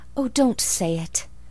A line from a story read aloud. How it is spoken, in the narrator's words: cried Anne pleadingly